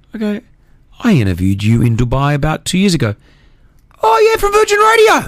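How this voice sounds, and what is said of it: Good put-on Irish accent. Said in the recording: “That was a great Irish accent there.”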